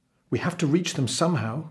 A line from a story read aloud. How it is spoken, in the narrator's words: cried the merchant